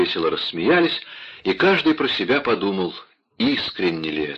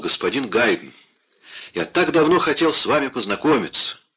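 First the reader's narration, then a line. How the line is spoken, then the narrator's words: Impatient exclamation. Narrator (Russian): Моцарт нетерпеливо воскликнул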